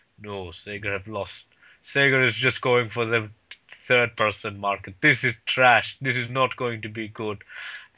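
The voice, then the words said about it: Deep-voiced imitation of another person. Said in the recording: “putting his voice on ... He has a very deep voice.”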